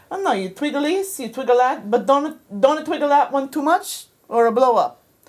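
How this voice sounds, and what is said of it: Deliberately bad put-on Italian accent. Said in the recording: “he was Italian, and I'm going to do a very bad Italian accent.”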